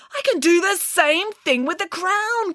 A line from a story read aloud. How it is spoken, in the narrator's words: cried Archimedes